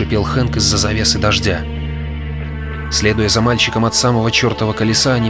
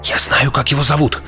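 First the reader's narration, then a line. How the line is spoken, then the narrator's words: Hurried whisper. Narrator (Russian): торопливо зашептал Хэнк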